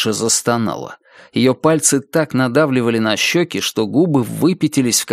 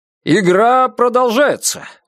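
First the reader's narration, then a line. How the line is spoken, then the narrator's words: Exclaimed. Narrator (Russian): воскликнул Джо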